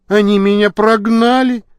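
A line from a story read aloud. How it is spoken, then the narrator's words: Young man, plaintive. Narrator (Russian): жалобно сказал юноша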